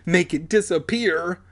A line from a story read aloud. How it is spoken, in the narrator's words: Alex pleaded